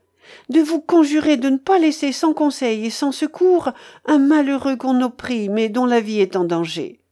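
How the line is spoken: Pleading reply. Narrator (French): répliqua la suppliante

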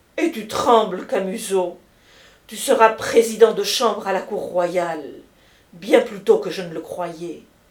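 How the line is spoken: Elated exclamation. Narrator (French): s'écria Madame Camusot, dont la figure rayonna

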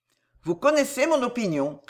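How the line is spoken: Cold reply. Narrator (French): répondit froidement Bernard

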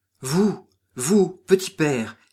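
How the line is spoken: Cry of recognition. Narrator (French): s'écria l'infortuné Cafre dès qu'il aperçut et reconnut Cyprien

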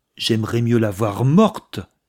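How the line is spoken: Violent shout. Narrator (French): s'écria le jeune homme avec violence

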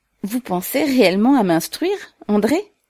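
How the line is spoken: Asking with involuntary laughter. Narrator (French): demanda-t-elle en riant involontairement

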